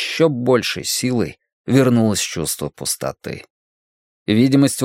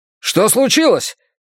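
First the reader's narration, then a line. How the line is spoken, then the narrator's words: Shouting over intercom. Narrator (Russian): кричал Аркадий по внутренней связи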